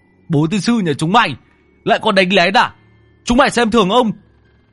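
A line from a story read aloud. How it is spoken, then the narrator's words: Angry shout. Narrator (Vietnamese): Lão Tứ quát lên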